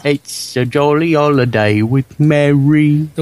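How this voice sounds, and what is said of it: Bad British accent imitating Dick Van Dyke. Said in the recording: “The worst British accent. Yeah, you'll ever hear, besides John's, is Dick Van Dyke's. ... I was imitating him.”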